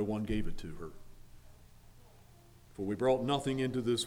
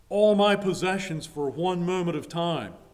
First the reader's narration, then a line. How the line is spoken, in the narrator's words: On her deathbed, Queen Elizabeth I cried out